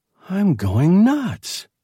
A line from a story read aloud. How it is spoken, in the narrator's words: Loyce whispered